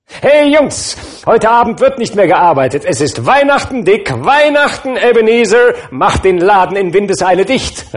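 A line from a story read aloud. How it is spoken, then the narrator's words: Old man calling out. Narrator (German): rief der alte Fezziwig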